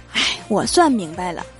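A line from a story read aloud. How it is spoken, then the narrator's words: Sighing. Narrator (Chinese): 小仙儿就叹了一口气说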